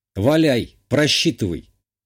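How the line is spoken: Confident snort. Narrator (Russian): хмыкнул я, будучи уверен в своей правоте

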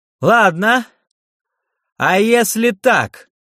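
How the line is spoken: Shouted. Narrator (Russian): выкрикнул Терн

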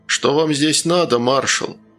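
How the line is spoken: Calm question. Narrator (Russian): спокойно спросил незнакомец

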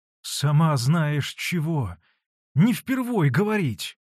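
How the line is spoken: Pleading voice. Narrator (Russian): Молящим голосом сказал Самоквасов

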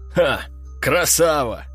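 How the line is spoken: Laughing loudly. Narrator (Russian): расхохотался он

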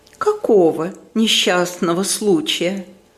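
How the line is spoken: Gentle question. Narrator (Russian): ласково спрашивает мадам Резо

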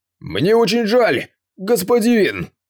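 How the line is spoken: Exclamation. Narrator (Russian): перед своим исчезновением, воскликнуть Ван Хок

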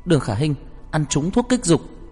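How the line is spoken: Urgent, piercing shout. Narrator (Vietnamese): Lâm Bạch Bạch khẩn trương xé giọng quát lên

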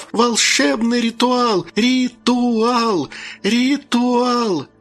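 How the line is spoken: Loud little ones shouting. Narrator (Russian): Малютки громко закричав

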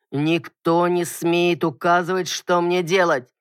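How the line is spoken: Warning growl. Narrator (Russian): предупреждающе прорычал

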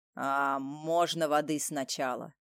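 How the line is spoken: Hoarse rasping voice. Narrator (Russian): Голос сиплый, как у бомжа

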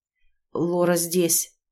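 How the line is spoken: Forced out. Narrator (Russian): выдавил он

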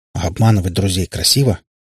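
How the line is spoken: Grumbling. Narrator (Russian): буркнул Иван

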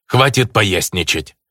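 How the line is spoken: Irritable snap. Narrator (Russian): По-русски сходу огрызнулся Иваныч, показывая степень своего плохого настроения

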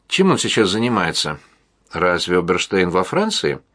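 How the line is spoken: Flawlessly surprised tone. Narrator (Russian): О удивился таким безупречным тоном

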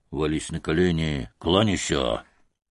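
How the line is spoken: Whispered. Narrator (Russian): шепотом

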